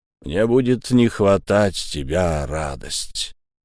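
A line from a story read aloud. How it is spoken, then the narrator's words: Muffled, dull. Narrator (Russian): глухо проронил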